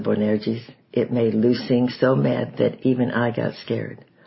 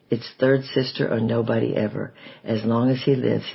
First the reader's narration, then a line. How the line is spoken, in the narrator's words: said